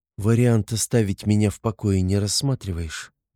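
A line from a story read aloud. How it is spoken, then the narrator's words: Muffled question. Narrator (Russian): глухо интересуется она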